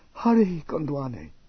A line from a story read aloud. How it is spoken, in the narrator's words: Sukina called softly